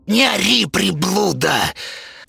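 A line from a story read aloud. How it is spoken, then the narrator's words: Hissing. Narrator (Russian): прошипела Зинаида Петровна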